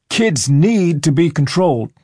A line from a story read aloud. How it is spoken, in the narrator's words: the same man shouted